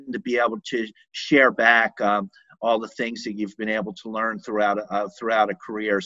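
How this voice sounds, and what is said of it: Pennsylvania accent. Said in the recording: “I was expecting a New Jersey accent, and I was going to say that you sounded like a Pennsylvania accent ... Philadelphia, yeah. Yeah, it's a little different ... Something about the way you say America.”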